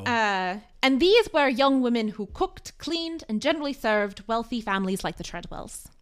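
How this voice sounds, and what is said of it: Put-on accent, gradually dropped. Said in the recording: “I don't uh, know what accent this is. ... you really segued out of that accent. ... I'm gonna drop his accent.”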